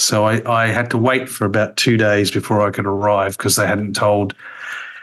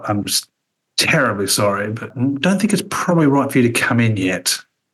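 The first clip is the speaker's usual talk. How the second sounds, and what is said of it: Very posh English accent. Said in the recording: “got a very, very posh accent”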